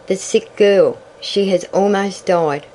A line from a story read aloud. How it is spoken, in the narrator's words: sighed Tavia